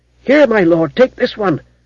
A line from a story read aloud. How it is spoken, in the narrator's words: cried the old stable-master eagerly